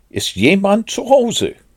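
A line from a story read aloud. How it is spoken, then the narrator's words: Calling into a hole. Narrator (German): steckte seinen Kopf in das Loch und rief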